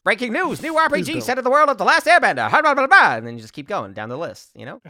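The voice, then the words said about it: Nasal, fast transatlantic newsreader accent. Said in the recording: “all speak like very nasally. Transatlantic 50s news reporters, and we'll just fly through the stories at that speed ... you just put on that accent, and then suddenly you can speak 12 times as fast”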